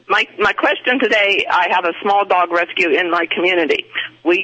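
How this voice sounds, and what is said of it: Strained, congested-sounding voice. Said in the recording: “I have very bad sinus strain, so my voice is going to sound very strange.”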